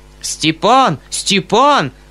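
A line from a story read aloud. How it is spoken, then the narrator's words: Uncle shouting. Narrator (Russian): закричал дядя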